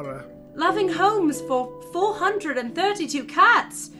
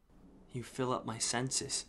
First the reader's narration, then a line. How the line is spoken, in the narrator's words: he murmured